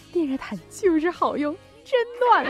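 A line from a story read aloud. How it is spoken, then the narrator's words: Smiling, pleased. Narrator (Chinese): 我老妈呀，笑眯眯的说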